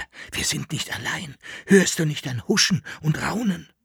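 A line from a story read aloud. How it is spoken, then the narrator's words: Whispered. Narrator (German): flüsterte er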